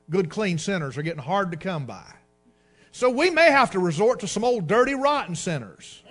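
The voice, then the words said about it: Sarcastic, facetious delivery. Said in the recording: “I'm being facetious here ... I'm being sarcastic on purpose”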